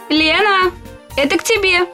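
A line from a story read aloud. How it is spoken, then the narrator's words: Mother shouting. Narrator (Russian): крикнула мама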